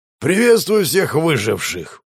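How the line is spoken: Growled. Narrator (Russian): прорычал Волф

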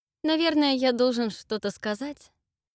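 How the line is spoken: Uncertain, after sad pause. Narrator (Russian): Неуверенно произнес Зак, когда печальная пауза слишком затянулась

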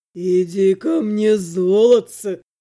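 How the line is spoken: Purred. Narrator (Russian): Отто промурлыкал

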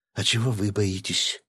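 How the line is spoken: Quiet question, young woman. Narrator (Russian): тихо спросила девушка

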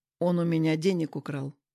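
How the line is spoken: Calm. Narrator (Russian): спокойно сказал

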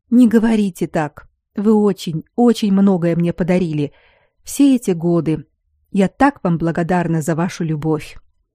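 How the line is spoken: Impulsive whisper. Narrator (Russian): Айлин порывисто, прошептав

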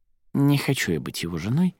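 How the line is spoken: Quiet. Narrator (Russian): тихо произнесла Арадия

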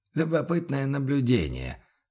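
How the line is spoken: Quiet. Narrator (Russian): произнес Бруно негромко

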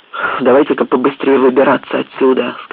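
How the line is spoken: Plain. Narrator (Russian): сказал Фоллет

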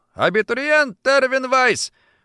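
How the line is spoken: Loud sudden shout. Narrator (Russian): офицер вдруг громко выкрикнул

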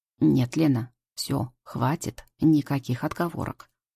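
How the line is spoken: Stern. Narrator (Russian): строго говорит Валера

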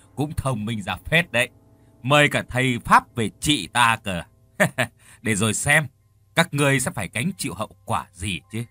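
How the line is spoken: Mocking loud laughter. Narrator (Vietnamese): cười lớn rồi nói

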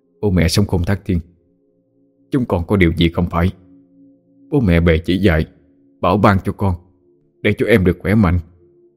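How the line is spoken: Muttering. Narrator (Vietnamese): Chú miệng lẩm bẩm nói

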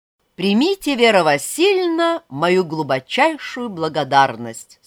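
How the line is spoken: Plain. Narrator (Russian): сказал он

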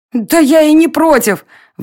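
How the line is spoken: Exclaimed. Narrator (Russian): воскликнула Варя

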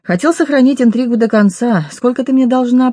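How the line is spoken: Cheerful question. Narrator (Russian): весело спросил Ник

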